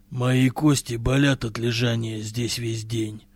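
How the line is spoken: Grumbling. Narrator (Russian): проворчал Хастила

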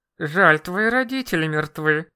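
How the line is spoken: Hissed through gritted teeth. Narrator (Russian): Процедила сквозь зубы уборщица, самая главная из верховных чародеев

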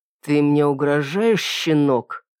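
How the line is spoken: Said through gritted teeth. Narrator (Russian): процедил детектив

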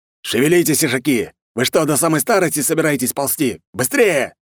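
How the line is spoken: Man shouting. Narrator (Russian): заорал мужчина

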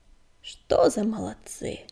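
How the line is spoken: Affectionate grumble. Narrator (Russian): ласково проворчал Буран

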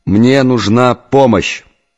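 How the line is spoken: Shout. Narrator (Russian): крикнул

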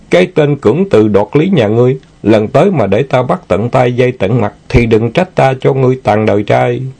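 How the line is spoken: Laughing reply. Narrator (Vietnamese): Quỷ Linh cũng bật cười đáp lại

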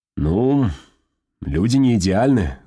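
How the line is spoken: Sighed. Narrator (Russian): вздохнул Стулов

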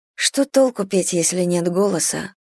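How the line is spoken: Whispered. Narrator (Russian): прошептала она

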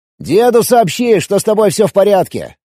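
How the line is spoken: Shouting after someone. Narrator (Russian): крикнул я вдогонку

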